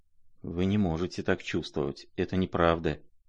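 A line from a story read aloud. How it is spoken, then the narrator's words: Male mumbling. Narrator (Russian): бормотал он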